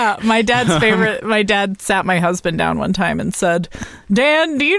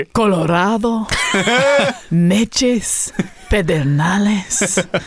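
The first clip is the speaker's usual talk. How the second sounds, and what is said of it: Thick Mexican accent, breathy pronunciation. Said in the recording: “with a very thick Mexican accent ... he like really pronounced every... ... I was hearing that breathy...”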